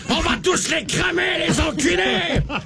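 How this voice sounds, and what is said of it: Shouted line in French accent. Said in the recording (French): “qu'il lâche des cris de mort avec un accent français”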